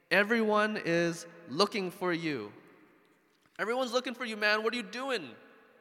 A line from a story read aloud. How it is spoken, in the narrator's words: Simon and his companions exclaimed